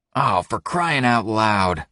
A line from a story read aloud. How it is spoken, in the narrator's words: Wes groans, genuinely embarrassed